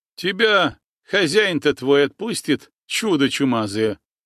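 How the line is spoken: Laughing. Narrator (Russian): хохотнул Иван

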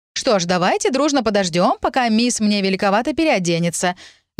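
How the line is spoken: Snide remark, female steward. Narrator (Russian): ехидно заметила распорядительница

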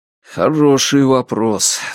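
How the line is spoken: Sigh. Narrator (Russian): вздохнул Страйк

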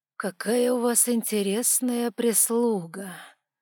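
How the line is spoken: Drawl, veiled menacing authority. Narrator (Russian): Протянул со скрытой опасной властностью

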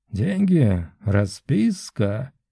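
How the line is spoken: Sudden muffled dry rustling voice. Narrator (Russian): Внезапно и достаточно глухо произнес эльф, и его голос был таким же сухим и шуршащим, как его кожа

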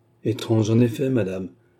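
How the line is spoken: Fateful sigh. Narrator (French): soupira le baronnet d'un air fatal

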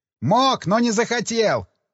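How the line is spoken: Shouting into someone's ear. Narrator (Russian): прокричал я на ухо радисту

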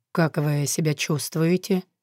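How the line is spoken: Quiet question. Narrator (Russian): тихо спросил

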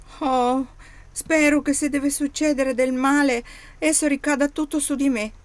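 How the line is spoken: Exclaimed. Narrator (Italian): esclamò Oddo

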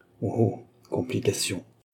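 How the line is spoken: Doctor murmuring. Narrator (French): murmura le docteur

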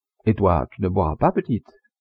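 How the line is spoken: Cheerful question. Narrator (French): interrogea gaiement

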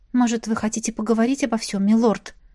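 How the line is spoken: Timid clarifying question. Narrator (Russian): робко уточнила я

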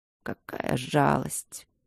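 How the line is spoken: Barely audible. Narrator (Russian): еле слышно произнес Алик

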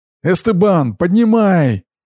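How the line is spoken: Shouted. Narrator (Russian): крикнула она

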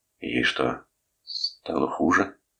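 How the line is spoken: Trembling question. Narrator (Russian): спросил Торн дрожащим голосом

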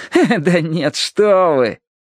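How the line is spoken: Grumbling again. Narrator (Russian): Сирил снова заворчал

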